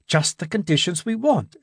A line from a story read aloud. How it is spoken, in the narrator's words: exclaimed Gibson